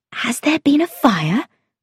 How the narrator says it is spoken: I asked in an anxious whisper

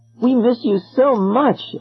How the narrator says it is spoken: Eloise cried

